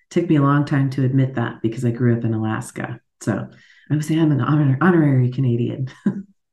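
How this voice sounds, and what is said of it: American accent. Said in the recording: “as you can hear from my accent, I'm an American.”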